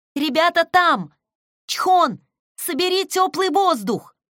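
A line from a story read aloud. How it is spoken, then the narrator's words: Shouting. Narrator (Russian): крикнула Сэхи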